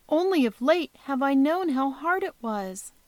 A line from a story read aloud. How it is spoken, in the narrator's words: answered she tenderly